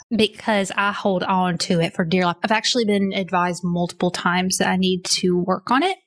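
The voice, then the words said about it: Noticeable regional accent. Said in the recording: “How did Ellen lose her accent, but you cannot seem to shake it?”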